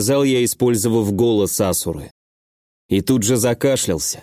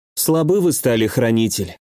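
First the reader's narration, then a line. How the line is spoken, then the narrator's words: Sighing. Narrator (Russian): вздохнула Руки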